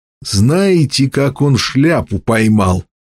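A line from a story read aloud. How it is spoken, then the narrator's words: Hoarse watchman asking. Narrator (Russian): севшим голосом спросил сторож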